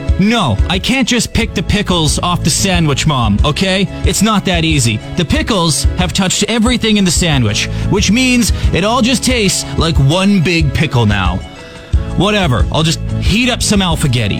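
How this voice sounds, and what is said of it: Impersonates a picky eater. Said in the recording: “Here's my impression of every picky eater in the history of picky eaters.”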